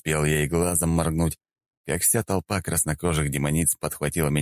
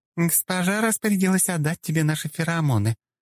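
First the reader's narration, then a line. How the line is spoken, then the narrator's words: Seductive cooing. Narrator (Russian): проворковала одна из демониц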